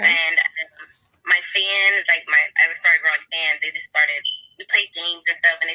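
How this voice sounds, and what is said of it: Slight accent. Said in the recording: “I heard you have a little accent there.”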